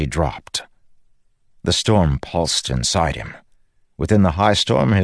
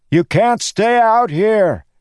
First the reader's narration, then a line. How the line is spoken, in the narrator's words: he shouted at them all